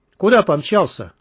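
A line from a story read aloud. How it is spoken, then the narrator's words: Rough call. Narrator (Russian): грубо окликнул его Мякиш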